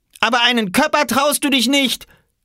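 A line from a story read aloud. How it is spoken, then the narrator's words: Called out. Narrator (German): rief Oskar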